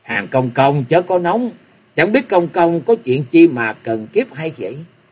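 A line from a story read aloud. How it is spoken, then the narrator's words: Smiling. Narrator (Vietnamese): Nam Hải Tây Thi mỉm cười nói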